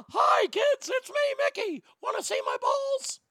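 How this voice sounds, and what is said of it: Bad Mickey Mouse cartoon voice. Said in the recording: “bad as that impersonation”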